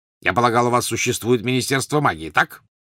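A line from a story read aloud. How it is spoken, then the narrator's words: Sudden sharp question. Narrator (Russian): вдруг резко спросил Вернон Дурсль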